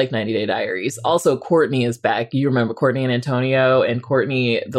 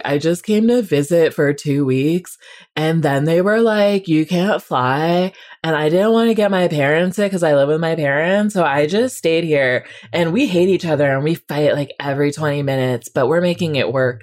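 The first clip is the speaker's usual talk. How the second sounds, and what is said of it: Imitates another person's voice. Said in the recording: “That was a very good Courtney impression, by the way... that was a very good Courtney impression, but I nailed it”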